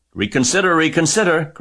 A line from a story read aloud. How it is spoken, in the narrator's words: cried the goose